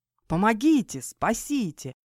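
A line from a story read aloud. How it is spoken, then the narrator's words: Screaming for help. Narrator (Russian): завопил Фихас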